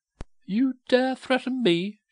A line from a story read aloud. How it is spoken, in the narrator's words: she cried